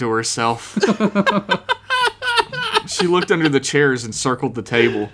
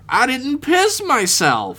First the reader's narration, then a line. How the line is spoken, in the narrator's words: Flinch exclaimed, like a revelation had come to him